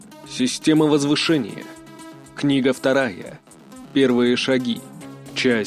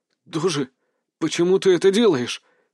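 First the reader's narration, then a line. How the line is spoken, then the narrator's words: Shocked question. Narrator (Russian): спросил я у него шокированным голосом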